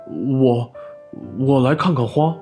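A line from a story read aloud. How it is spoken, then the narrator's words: Embarrassed stammering. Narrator (Chinese): 熊顿时就红了脸，结结巴巴地说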